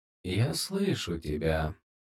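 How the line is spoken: Whispering inner voice. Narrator (Russian): прошептал голос в ее голове

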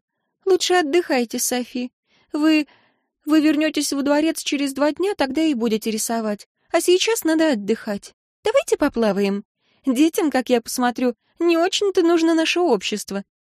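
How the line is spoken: Quiet reply. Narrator (Russian): Виктория нервно облизнула губы и негромко ответила

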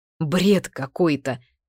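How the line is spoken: Stunned exhale. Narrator (Russian): ошеломленно выдохнул он

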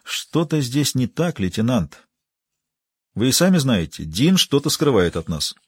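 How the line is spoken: Quiet woman's voice. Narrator (Russian): тихо сказала

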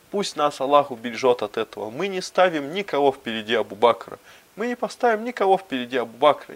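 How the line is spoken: Crowd exclaiming. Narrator (Russian): ансары воскликнули

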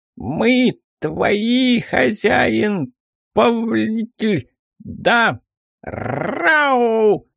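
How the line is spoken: Howling. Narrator (Russian): Взвыл он

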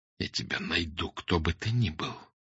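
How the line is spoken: Whisper. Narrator (Russian): прошептал Фандорин

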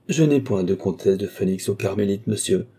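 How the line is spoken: Curt retort. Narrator (French): répliqua sèchement la princesse

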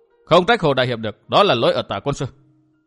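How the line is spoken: Stern voice. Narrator (Vietnamese): Cung Hồng Hồng nghiêm giọng tiếp lời

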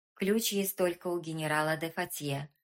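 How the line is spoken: Plain. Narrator (Russian): ответил военный

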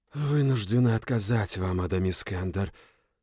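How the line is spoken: Dreadful whisper. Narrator (Russian): страшным шепотом сказала Люча

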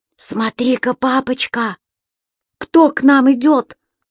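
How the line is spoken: Sudden whisper. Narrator (Russian): зашептал вдруг Субастик

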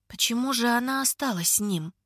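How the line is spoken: Mumble. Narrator (Russian): бормочет она

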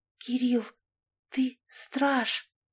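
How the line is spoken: Admiring whisper. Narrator (Russian): Алисия восхищенным взглядом прошептала

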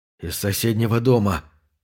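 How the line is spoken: Trembling voice. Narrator (Russian): дрогнувшим голосом произнес Боб

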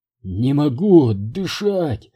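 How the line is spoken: Moaning. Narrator (Russian): простонал

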